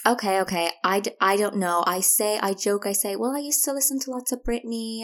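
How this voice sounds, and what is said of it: American accent. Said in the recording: “you're Irish, but you've got an American accent ... thank God you sound American now”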